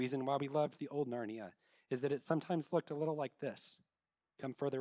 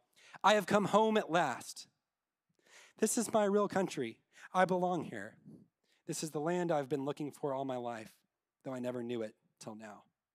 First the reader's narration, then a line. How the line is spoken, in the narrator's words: He stamped his forehoof on the ground and neighed and cried